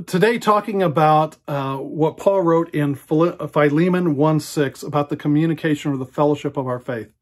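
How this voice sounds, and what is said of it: Slightly raspy voice. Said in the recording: “my voice is a little raspy, sorry about that. I've already talked for a couple of hours.”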